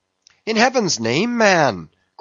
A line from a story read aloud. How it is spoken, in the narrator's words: cried Stubb